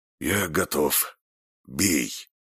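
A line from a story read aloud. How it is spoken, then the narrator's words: Hoarse rasp, spitting blood. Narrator (Russian): он, сплевывая красную слюну, прохрипел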